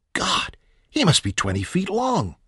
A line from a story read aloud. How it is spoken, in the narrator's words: Kermit gasped